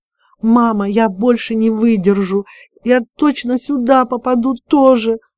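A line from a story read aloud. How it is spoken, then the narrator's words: Sobbing. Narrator (Russian): рыдала Маша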